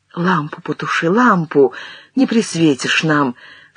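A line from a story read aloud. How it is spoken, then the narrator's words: Whispering. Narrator (Russian): шептала она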